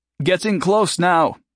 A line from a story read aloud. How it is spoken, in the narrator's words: Hiram said loudly over the noise of rushing water